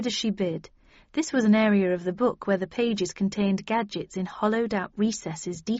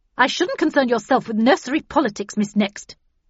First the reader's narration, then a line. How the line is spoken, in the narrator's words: said Havisham so sharply I jumped